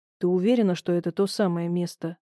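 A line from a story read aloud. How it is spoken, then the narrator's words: Quiet question. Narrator (Russian): тихо спросил Михаил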